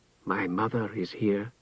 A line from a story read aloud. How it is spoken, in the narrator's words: Tehanu said softly to Irion